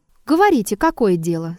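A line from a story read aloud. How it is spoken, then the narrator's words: Calm. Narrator (Russian): спокойно сказала Елисавета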